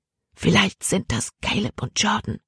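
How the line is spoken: Whispering. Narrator (German): flüsterte Libby

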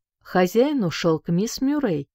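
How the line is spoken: Plain. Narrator (Russian): сказала она

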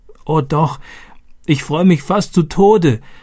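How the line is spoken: Gasping, laughing and crying. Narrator (German): japste sie und lachte und weinte gleichzeitig

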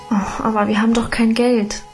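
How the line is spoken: Sighing. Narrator (German): seufzte ich

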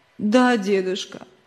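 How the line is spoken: Sobbing child. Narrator (Russian): всхлипывая ответил мальчик

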